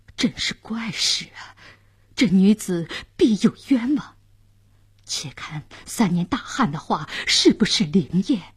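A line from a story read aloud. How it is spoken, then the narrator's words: Surprised muttering. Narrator (Chinese): 监斩官、刽子手也惊讶地嘟囔着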